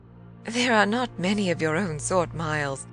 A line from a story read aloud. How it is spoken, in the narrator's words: I laughed